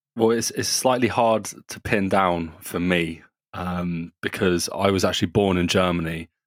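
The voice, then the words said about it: British accent. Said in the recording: “from the accents we can hear you guys are British”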